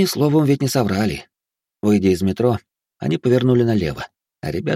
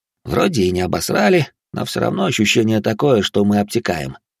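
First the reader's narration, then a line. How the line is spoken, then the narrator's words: Philosophical remark. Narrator (Russian): философски заметил Баженов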